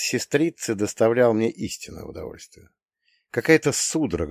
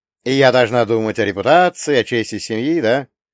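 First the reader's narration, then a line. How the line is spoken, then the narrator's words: Sarcastic. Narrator (Russian): язвительно сказал я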